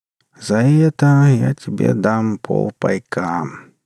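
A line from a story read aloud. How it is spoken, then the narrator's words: Lazy drawl. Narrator (Russian): лениво протянул бармен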